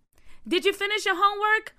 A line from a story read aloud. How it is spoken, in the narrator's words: Aunt Jackie yelled out of the window